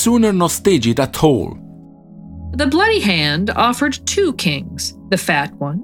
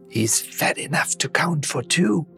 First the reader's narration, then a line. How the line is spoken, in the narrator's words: whispered Bobono